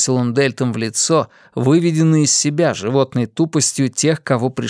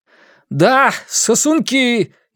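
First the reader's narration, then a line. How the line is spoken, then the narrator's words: Louder shout. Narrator (Russian): еще громче крикнул он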